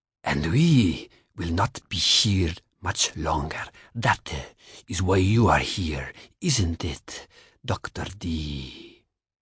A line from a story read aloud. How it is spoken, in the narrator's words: The voice was a cross between a sultry growl and a purr, shaping the English words with difficulty